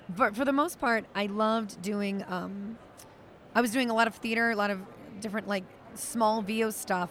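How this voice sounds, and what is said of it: Worn-out, strained voice. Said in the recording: “sorry, my voice is gone from this con... speaking all day, 5 panels. So my voice is a little shot right now.”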